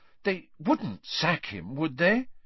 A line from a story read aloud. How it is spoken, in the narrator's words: said Hermione anxiously